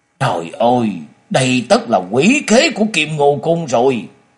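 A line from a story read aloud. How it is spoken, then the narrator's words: Sudden angry speech. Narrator (Vietnamese): Hải Thiên Thần Tẩu chợt dục đứng dậy giận dữ nói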